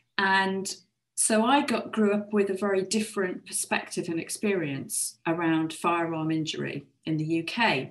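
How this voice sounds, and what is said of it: British English accent. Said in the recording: “You can tell from my accent that I'm a Brit.”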